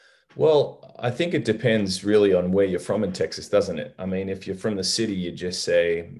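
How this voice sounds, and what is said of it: Usual voice. Nothing is said of it.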